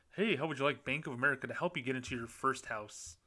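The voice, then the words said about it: Put-on fake salesman voice. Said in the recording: “that was my fake voice.”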